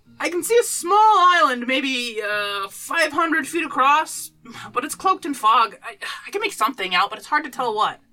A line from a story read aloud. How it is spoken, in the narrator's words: the crow's nest shout to Stoneclaw